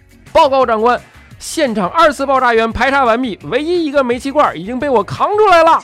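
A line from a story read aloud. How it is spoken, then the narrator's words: Loud shout. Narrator (Chinese): 就听见救命恩人大声的喊道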